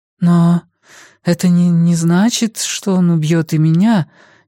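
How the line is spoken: Uncertain. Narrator (Russian): неуверенно сказала Валерия

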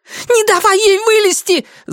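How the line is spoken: Woman's shriek. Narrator (Russian): завизжала женщина

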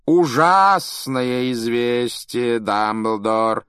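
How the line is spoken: Theatrical drawl. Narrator (Russian): театральным голосом протянул Малфой

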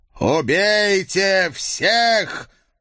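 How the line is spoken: Booming voice. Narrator (Russian): прогремел незнакомый голос

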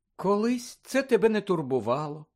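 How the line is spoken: Sad. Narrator (Ukrainian): сказала Мірта сумно

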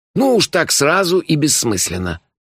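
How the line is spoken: Listless snappish retort. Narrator (Russian): довольно вяло огрызнулся он

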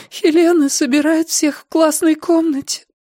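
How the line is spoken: Tearful. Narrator (Russian): сквозь слезы сказала Сесилия

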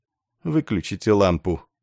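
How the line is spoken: Quiet. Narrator (Russian): негромко сказал он

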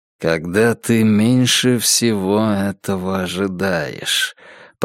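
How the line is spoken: Mumbling under breath. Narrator (Russian): пробормотал он себе под нос

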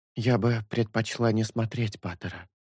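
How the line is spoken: Whispering. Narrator (Russian): шепнула Шелку Майтера Мята

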